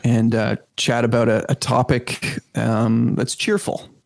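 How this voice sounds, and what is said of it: Sarcastic tone. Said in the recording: “are you being sarcastic?”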